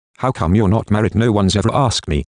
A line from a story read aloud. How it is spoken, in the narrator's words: Heidi says evenly